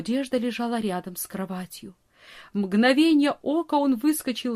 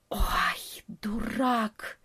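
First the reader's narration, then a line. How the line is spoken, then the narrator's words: Bat's half-voiced hiss. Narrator (Russian): прошипел в полголоса летучая мышь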